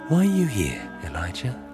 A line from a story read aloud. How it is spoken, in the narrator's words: The voice whispers